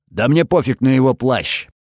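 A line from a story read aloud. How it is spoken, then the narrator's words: Roared. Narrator (Russian): взревел тот, что с ножом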